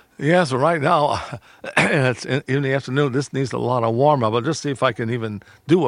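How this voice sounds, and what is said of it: Usual voice. Nothing is said of it.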